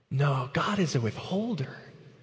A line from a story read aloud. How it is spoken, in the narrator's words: Satan whispers